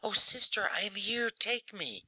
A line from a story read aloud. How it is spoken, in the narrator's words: the child beheld his brother's angel in her arms, he cried